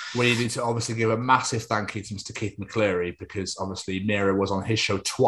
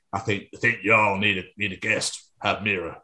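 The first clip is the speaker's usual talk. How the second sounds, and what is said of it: Imitates another person's voice. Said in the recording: “my Keith impression. It's terrible. ... That's a great Keith impression.”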